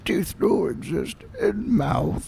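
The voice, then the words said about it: Raspy Yoda-style character voice. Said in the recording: “lose your voice and do a Yoda impersonation ... that was a little raspy”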